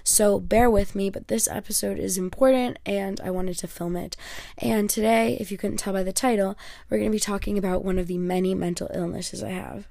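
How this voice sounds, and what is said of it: Voice sounds unwell. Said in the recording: “My voice is getting a little bit worse than it was before. It's been fluctuating.”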